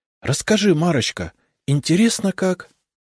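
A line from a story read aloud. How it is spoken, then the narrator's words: Pleading voice. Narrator (Russian): просила Наталья умоляющим голосом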